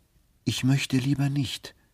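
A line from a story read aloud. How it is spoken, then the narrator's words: Plain. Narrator (German): sagte er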